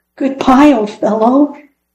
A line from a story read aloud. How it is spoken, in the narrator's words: he called out sadly, sure that Fritz was gone forever